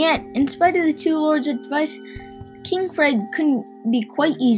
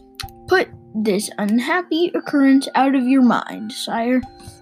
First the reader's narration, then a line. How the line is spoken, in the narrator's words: said Flippoon